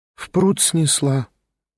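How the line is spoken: Sighed. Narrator (Russian): вздохнула

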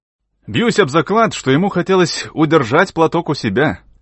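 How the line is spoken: Laughing young man. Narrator (Russian): сказал молодой человек, засмеявшись

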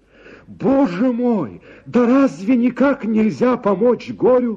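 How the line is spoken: Shout. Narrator (Russian): закричал я

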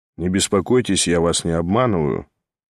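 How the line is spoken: Rather cold, dutiful. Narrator (Russian): довольно холодно продолжал Ставрогин с видом человека, исполняющего только обязанность

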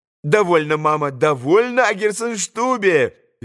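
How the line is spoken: Merry laughing. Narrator (Russian): весело смеялась Лиза

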